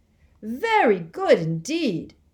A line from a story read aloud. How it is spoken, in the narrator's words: Bagman was shouting